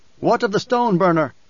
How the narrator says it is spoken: one of the newcomers shouted

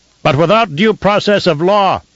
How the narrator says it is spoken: shouted one dissenter, a tiny voice in the immensity of the Lansrad Hall

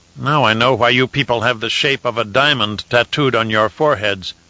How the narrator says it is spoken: Hezban growled

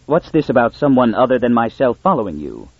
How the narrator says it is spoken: Pritcher intervened sharply

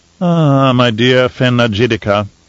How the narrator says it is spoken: Fenring purred

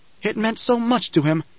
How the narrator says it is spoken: Jessica pleaded

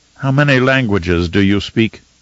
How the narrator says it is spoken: Fenring asked

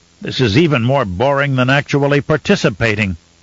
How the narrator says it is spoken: he snapped

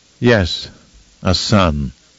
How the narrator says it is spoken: Mohiam responded in a flat, somehow bitter tone

